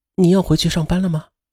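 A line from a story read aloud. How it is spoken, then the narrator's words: Gentle question. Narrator (Chinese): 他就温柔地问他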